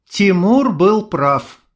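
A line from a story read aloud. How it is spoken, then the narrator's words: Sigh. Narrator (Russian): вздохнула Майя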